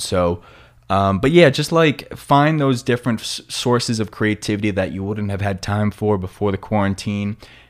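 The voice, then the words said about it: Strong New York accent. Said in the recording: “my New York accent is getting like really intense ... they always bring up the fact that I'm from New York”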